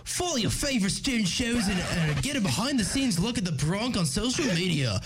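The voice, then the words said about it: Put-on accent. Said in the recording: “I'm going to do it in an accent.”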